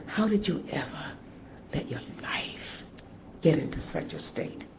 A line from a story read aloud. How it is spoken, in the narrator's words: quietly said